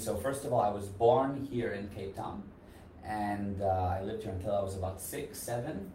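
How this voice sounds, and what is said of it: Mixed American and Israeli accent. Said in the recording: “that's the accent, is Israeli background ... it's a mix between a little bit of American, a little Israeli”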